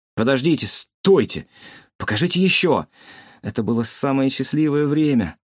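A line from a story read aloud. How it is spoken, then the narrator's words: Vexed exclamation. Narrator (Russian): с досадой воскликнул Чигён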